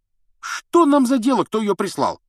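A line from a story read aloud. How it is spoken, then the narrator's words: Carefree exclamation. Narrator (Russian): воскликнул беспечный Рон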